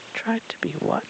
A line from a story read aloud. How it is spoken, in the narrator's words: Pooh whispered up at the stranger